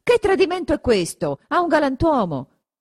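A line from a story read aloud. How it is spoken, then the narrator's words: Shouted. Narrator (Italian): Renzo grida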